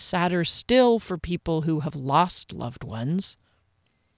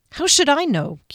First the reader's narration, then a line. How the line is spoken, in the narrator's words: Kier replied crossly